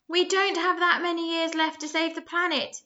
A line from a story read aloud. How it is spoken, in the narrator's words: he repeated, this time so loudly that everyone in the area could hear him